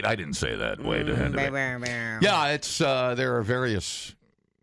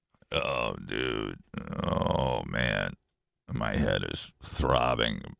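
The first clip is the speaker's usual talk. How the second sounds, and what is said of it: Fake sick voice. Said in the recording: “the fake sick voice”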